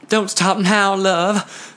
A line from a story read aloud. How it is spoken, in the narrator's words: Ferdy pleaded